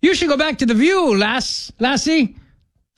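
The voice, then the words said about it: Attempted Irish accent. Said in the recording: “I don't do an Irish accent ... Usually it turns into sort of pirate.”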